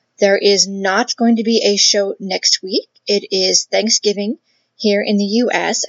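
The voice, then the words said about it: Worn, slightly off voice. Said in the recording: “My voice is definitely starting to take a little bit of a beating ... my voice is sounding a little bit wonkier than normal”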